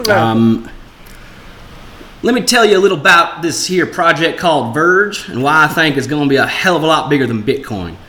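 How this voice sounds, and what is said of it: Put-on Southern American accent. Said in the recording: “can I do like a southern accent? ... southern accent ... well, it's American.”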